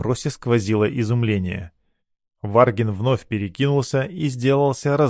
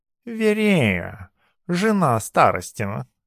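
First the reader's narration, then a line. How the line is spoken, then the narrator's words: Cat purring. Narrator (Russian): мурлыкнул кот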